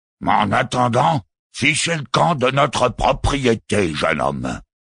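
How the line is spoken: Man growling. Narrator (French): avait grogné l'homme

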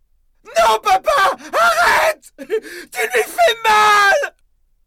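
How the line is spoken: Screamed. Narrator (French): hurla Helen

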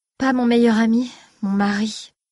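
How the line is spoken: Sighing reply. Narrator (French): répondit sa reine en soupirant

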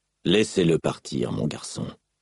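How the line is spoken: Sighing. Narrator (French): dit Dalinar en soupirant

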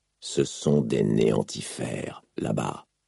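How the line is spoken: Hissing. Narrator (French): siffla Dalinar, le visage ruisselant de pluie

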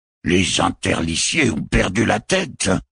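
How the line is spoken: Cardinal growling. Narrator (French): gronda le cardinal

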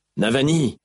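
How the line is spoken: Shouting. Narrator (French): cria Dalinar

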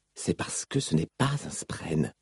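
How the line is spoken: Answering very quietly. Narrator (French): répondit-il tout bas

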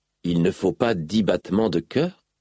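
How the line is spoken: Plain question. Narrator (French): demanda-t-il

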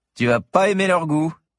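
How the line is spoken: Sneered. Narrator (French): ricana le 3e

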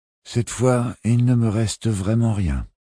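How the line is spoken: Sighed. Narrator (French): soupira le Syracusain

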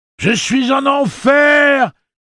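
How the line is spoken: Shouting. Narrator (French): hurla-t-il

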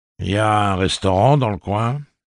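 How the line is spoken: Plain question. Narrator (French): demanda le pistolero

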